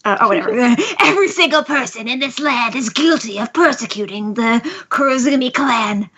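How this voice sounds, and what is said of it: Deepened character voice for Orochi. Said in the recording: “I need to do a good voice. ... I don't even know what the voice is. ... This could be deeper, but I can't do that.”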